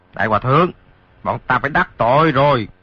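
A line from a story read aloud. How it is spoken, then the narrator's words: Shouted threat. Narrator (Vietnamese): Hai tên lạc ma kia quát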